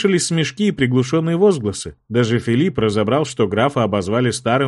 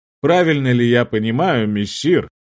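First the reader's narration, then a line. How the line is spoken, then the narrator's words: Smirking. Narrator (Russian): хмыкнул герцог де Ганди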